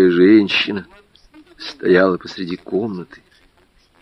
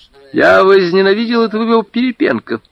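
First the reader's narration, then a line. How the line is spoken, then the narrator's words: Cheerful. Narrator (Russian): весело сказала Вера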